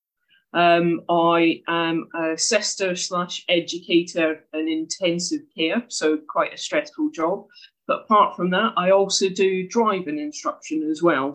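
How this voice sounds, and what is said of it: Scottish accent. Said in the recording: “you can probably tell from the accent I'm not from there. I'm from Scotland originally.”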